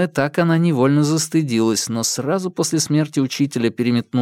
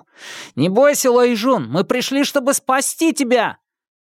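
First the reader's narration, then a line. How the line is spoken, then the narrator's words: Older leader shouting. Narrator (Russian): Их главарь, который на вид был старше остальных, крикнул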